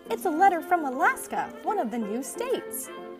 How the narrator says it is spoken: cried

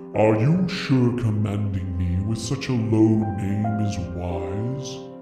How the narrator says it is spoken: I purr

